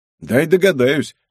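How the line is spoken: Snort. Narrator (Russian): хмыкнул я

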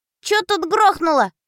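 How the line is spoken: Squeaky child voice. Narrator (Russian): пропищал детский голосок

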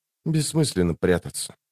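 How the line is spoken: Whisper. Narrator (Russian): прошептала Лорн

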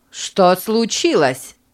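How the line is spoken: Angry question. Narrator (Russian): спросила сердито женщина

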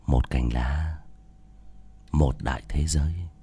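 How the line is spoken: Whispering in ear. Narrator (Vietnamese): thì thầm vào tai của Nữ Mẫu

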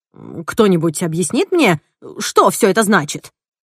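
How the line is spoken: Angry. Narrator (Russian): сердито произнес Генри

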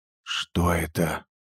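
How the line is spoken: Whispered question. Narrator (Russian): спросил Грег шепотом

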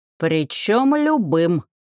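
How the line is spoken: Snorting goblin. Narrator (Russian): фыркнул один из гоблинов, кажется, Кварк

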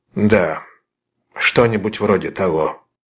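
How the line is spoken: Thoughtful, calm reply. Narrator (Russian): ответил Холлис задумчиво и спокойно

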